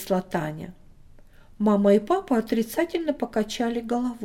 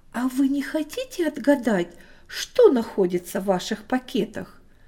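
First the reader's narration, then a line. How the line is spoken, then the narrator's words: Plain. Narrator (Russian): спросила теперь мама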